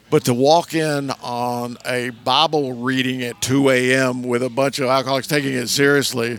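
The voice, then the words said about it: Southern American accent. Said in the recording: “I have a certain Southern accent.”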